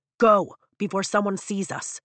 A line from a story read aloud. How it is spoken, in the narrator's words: Dane barks